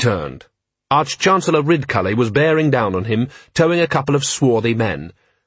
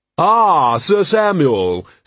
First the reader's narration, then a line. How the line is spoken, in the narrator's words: said a booming voice behind him